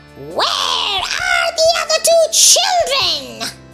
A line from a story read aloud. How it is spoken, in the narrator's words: screeched